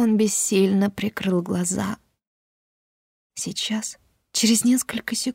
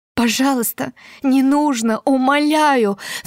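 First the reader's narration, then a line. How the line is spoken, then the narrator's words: Sobbing. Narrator (Russian): всхлипывала я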